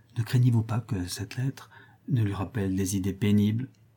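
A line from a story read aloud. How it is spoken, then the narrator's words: Whispered. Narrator (French): dit tout bas Clémence à Rodolphe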